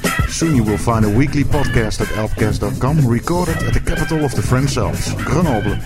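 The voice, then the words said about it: Dutch accent in English. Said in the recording (Dutch): “stop wondering about the accent, it's Dutch. Get used to it.”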